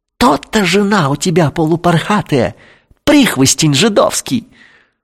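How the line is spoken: Gleeful hiss. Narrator (Russian): прошипел радостно

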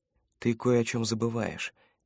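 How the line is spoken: Quiet speech. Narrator (Russian): тихо произнес научник

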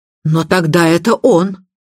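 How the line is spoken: Exclamation. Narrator (Russian): воскликнула миссис Ривз

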